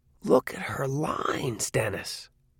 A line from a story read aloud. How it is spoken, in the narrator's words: Arnie whispered